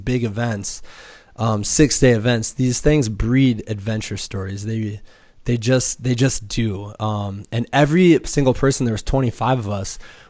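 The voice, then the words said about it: Hoarse voice from a cold. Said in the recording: “my amazingly sexy voice right now, I have a little bit of cold ... you just crap out”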